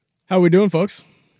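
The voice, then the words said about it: Raised-pitch projected radio voice. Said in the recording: “I felt like you brought it up an octave or two there. ... You have a radio voice, don't you?”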